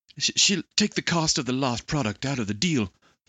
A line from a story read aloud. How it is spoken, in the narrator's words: the translator said in Chinese, his voice distant